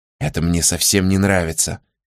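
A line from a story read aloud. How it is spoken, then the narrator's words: Whisper. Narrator (Russian): прошептала Элинор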